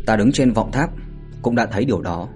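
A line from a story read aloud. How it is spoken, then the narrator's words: Cold. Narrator (Vietnamese): Mạnh Hổ lạnh lùng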